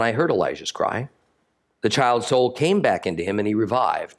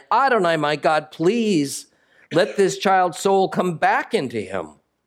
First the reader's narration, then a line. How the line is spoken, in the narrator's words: he cried out to Adonai